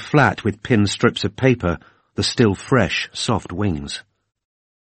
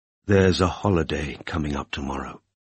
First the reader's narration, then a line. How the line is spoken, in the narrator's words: Ivan answered in a low, mellow voice